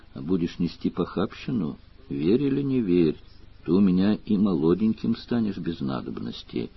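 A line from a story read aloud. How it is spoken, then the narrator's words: Old woman, affectionate. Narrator (Russian): Старуха ласково сказала вслед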